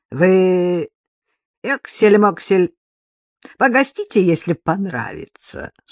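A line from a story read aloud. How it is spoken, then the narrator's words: Chuckling again. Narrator (Russian): снова хохотнул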